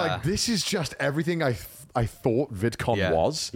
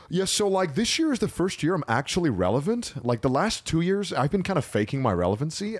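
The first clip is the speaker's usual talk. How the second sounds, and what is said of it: American influencer voice impression. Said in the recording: “that was a really good influencer voice ... the American accent really sounded”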